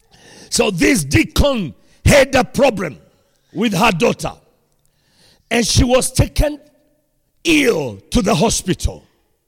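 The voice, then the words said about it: Speaks with a noticeable accent. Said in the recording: “If you don't get the accent, you lift up your head, I will repeat.”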